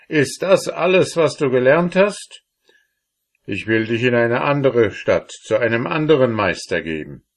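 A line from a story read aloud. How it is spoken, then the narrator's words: Father calling out. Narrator (German): rief der Vater aus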